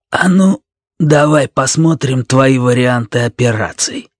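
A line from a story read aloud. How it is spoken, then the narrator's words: Grumbled. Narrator (Russian): буркнул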